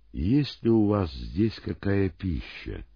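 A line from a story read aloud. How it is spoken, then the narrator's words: Calm question. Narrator (Russian): И спокойно, словно ничего не произошло, он спросил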